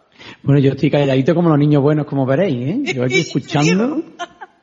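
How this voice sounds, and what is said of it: Andalusian Cordoban Spanish accent. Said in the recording (Spanish): “Qué acento tan simpático ese cordobés, ¿verdad? Qué acento andaluz ese bonito.”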